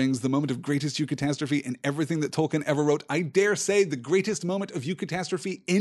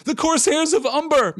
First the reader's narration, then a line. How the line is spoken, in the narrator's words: men shouted